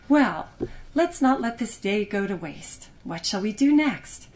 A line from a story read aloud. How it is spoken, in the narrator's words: Millicent said brightly